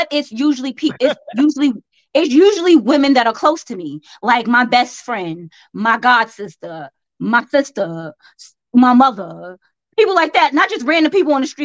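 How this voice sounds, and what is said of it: Southern American accent. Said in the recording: “I may have a southern accent”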